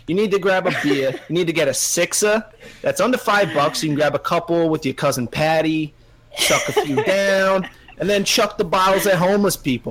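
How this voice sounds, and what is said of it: Put-on Boston accent. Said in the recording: “Makes the Boston the sexiest accent in all of the United States, in all the world even”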